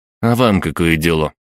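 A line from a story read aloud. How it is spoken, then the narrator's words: Irritated curt remark. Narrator (Russian): раздраженно бросил кассир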